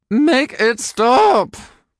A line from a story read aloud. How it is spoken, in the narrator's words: Gary wailed